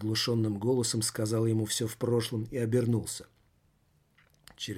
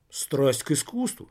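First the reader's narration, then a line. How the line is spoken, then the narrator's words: Loud laughter. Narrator (Russian): все в прошлом расхохотался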